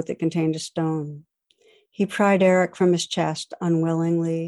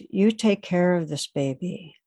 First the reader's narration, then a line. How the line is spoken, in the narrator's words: He said in a firm, commanding voice